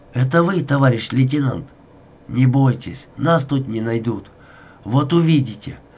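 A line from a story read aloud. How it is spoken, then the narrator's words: Whisper. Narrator (Russian): зашептал он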